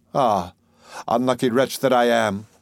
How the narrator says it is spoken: sighed she

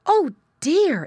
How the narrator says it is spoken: exclaimed Mrs

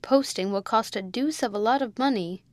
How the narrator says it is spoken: grumbled Rawdon

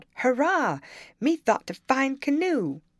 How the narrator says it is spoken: he shouted out

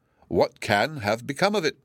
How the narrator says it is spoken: exclaimed Lady Muriel

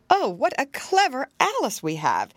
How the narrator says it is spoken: the mother likewise exclaimed

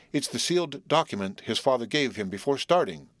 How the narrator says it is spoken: said Bluff

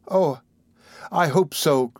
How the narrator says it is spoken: cried Oliver

